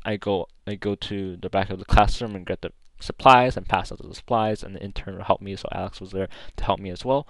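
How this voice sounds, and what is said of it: Talking too fast. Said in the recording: “I'm talking too fast.”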